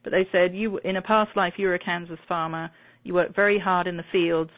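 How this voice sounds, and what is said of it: British accent. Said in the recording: “my British accent”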